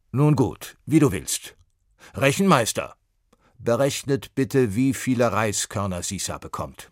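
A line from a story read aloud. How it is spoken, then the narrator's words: Calling out. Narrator (German): rief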